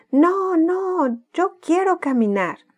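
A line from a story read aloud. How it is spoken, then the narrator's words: Shouting. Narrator (Spanish): gritaba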